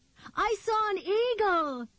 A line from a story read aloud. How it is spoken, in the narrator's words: Nikki called out to him, breathless with excitement